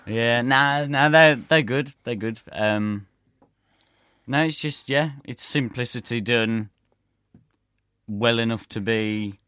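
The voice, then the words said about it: Black Country Dudley accent. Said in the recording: “Oh, what an accent. That's a Wolverhampton accent. ... That's a Dudley, that is.”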